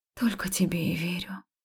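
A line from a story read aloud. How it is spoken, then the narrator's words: Soft breathy. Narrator (Russian): тихо выдохнула я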